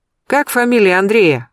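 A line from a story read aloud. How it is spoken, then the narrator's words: Loud question. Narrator (Russian): громко спросила я, чтобы женщина услышала меня, находясь в кухне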